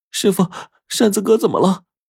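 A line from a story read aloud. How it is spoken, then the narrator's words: Loud crying. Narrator (Chinese): 小梅就大声的哭着说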